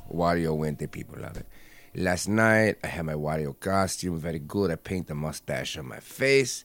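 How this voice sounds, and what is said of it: Hard-to-place Wario character accent. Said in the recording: “I use an accent that's very hard to place finger on, whether it's Mexican or Italian or Borat... your Wario voice... It's a very bad.”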